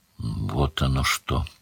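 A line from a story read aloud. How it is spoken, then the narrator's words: Thoughtful old woman. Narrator (Russian): задумчиво сказала старуха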